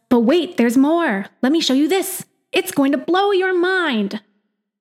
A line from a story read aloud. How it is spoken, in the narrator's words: It shouts